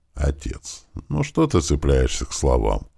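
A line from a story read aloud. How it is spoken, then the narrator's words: Son, tired. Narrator (Russian): устало произнес сын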